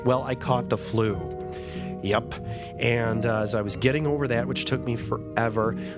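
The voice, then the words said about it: Nasal, congested voice. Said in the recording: “I don't know if you can tell by my voice, I'm a little nasally. I have a terrible cold right now”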